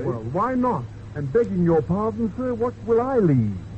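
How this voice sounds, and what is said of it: Comic character dialect voice. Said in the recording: “do you always converse with a dialect?”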